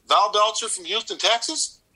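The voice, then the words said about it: Imitated Texas accent. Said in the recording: “in a normal voice, which I'd never heard out of him before in his life ... in a Texas accent,”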